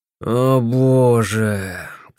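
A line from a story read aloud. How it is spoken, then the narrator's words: Critical sigh, steel beetle. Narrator (Russian): критически вздохнул стальной жук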